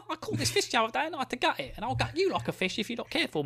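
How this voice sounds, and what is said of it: Put-on Victorian Cockney accent. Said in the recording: “Hope you go full, like, you know, Victorian Cockney”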